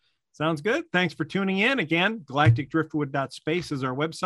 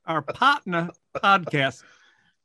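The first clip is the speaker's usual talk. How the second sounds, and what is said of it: Faint put-on Southern accent. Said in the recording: “A little Southern accent, so it almost isn't.”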